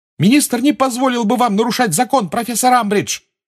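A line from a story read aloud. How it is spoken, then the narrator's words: Shout. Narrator (Russian): крикнула Гермиона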